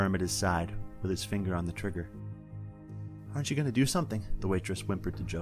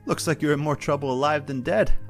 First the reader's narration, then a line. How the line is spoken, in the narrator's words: Alistair exclaimed